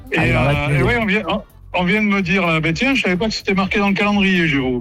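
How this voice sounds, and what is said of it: Slight Cantal regional French accent. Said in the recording (French): “Vous avez un peu d'accent, non ? Vous avez un petit accent ? ... je suis du Cantal”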